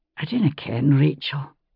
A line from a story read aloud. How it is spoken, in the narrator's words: he said quietly